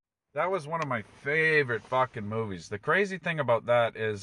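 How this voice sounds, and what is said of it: Usual voice. Nothing is said of it.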